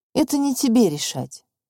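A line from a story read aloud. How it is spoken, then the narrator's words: Calm. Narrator (Russian): спокойно проговорил Федор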